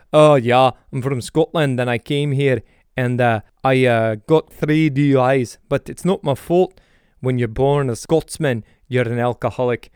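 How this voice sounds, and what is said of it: Imitated Scottish accent. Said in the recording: “this Scottish guy. He has this great Scottish breed ... that accent”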